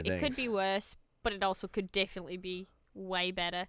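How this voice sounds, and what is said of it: Put-on Australian accent. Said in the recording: “talking in an Australian accent ... Because it's annoying.”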